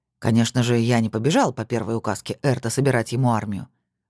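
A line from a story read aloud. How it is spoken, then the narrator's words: Wry grunt. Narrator (Russian): хмыкнул Сергей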